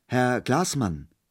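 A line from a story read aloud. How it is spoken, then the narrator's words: Hesitant call. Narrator (German): rief nach einigem Zögern Peter Munk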